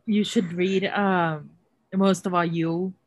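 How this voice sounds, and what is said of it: Sudden put-on accent. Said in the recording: “Why did I say that with an accent?”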